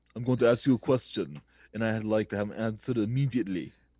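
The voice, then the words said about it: Imitates another person's voice. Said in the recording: “My weekly impression”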